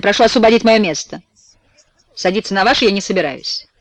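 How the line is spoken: Rude, sharp tone. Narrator (Russian): грубость мадам Эдмонд, которая говорит резким тоном, сверкая глазами

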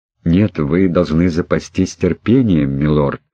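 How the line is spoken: Gentle objection, young woman. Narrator (Russian): мягко возразила девушка

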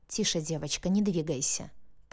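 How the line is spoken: Murmur from above. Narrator (Russian): пробормотал над моей головой смутно знакомый голос

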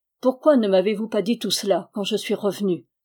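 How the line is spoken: Restrained voice. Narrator (French): fit-il d'une voix contenue

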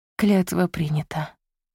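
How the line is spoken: Sighing. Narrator (Russian): вздохнула Изольда

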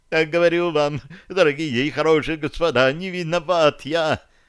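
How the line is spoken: Babbling plump man. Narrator (Russian): Опять залепетал толстячок

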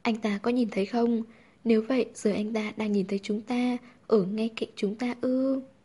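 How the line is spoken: Laughing, pressing questions. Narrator (Vietnamese): Hàn Thuật cười lớn, hỏi dồn

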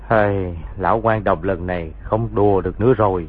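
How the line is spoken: Sighing. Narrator (Vietnamese): thở dài nói

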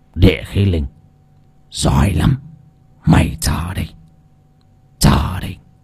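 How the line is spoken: Muttering old man. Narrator (Vietnamese): lão ... miệng lẩm bẩm

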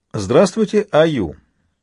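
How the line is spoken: Cheerful greeting through monitor. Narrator (Russian): весело поздоровался Альфа, глядя на него с экрана монитора

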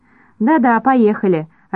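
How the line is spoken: Joyful, no accent. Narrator (Russian): радостно сказал сосед без акцента

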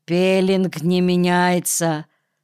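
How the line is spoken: Gloomy report. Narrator (Russian): Анржиевский мрачно доложил

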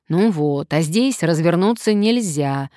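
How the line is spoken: Grumbling. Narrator (Russian): заворчал Сарычев

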